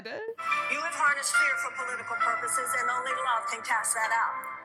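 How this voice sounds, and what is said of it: Transatlantic accent, 1940s starlet style. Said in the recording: “this woman talks like a 1940s starlet ... She has a transatlantic accent.”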